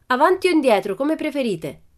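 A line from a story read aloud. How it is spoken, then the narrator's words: Shouting. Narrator (Italian): gridò Pippi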